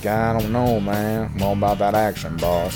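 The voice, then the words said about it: Imitates another person's voice. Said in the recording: “That's like a great Marshawn Lynch impression. ... It's pretty good.”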